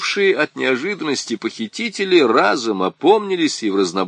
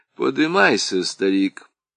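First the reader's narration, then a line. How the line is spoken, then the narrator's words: Calm. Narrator (Russian): спокойно сказал Сарбалахов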